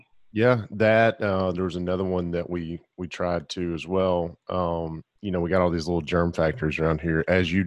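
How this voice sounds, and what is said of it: Scratchy, rough voice. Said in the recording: “apologize for my voice this morning ... I woke up with a scratchy throat”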